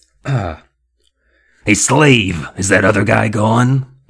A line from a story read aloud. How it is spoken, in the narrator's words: the dummy asked in a throaty growl